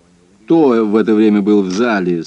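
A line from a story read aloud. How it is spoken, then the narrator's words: Dry question. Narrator (Russian): сухо спросил я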